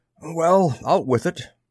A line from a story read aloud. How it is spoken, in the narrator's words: The corpulent Peter MacDonald wheezed